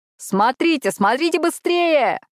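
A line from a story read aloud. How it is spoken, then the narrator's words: Wailing loudly. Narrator (Russian): вопил ангел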